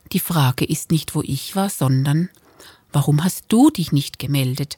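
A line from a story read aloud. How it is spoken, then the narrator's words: Gentle correction. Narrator (German): korrigierte ihn Sabine sanft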